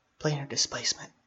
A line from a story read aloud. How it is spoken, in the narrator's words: said the whisper